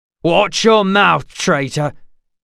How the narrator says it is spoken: Jessup growled

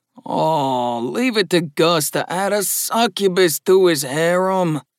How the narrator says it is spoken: sighed Mark loudly

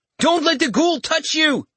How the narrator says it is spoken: Sion shouted

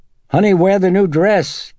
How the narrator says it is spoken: Chris called out after her

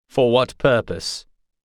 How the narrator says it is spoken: He asked coldly

